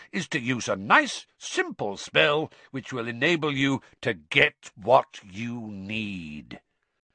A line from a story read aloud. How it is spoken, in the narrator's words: said Moody, loudly interrupting him